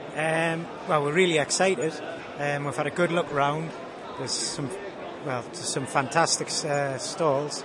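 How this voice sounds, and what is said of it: Slight Tyneside Geordie accent. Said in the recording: “Is there a Tyneside accent? There's a slight brogue.”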